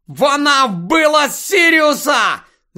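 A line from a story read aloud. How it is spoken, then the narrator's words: Scream. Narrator (Ukrainian): закричав Гаррі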